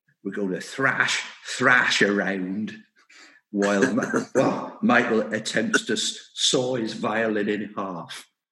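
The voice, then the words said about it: Put-on Somerset English accent. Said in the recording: “I'll do my best Somerset accent.”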